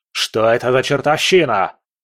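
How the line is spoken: Yelling. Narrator (Russian): заорал он

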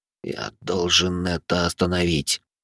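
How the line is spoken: Determined whisper. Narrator (Russian): прошептал он, чувствуя, как внутри него зарождается новая решимость

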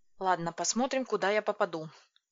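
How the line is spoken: Muttering. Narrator (Russian): пробормотала я

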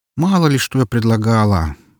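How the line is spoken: Grumbling. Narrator (Russian): проворчала Эльсийка

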